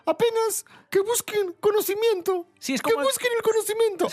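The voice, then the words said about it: Imitates a strange character voice. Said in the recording (Spanish): “poniendo la voz... Habla así. Es como el chapulín colorado un poco”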